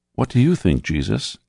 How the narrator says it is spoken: asked Mother Mary, gently

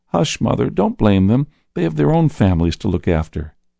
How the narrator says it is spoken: said the man kindly

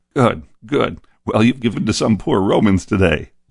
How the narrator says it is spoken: laughed the leader, who was joined by all but one of his men in making fun of us

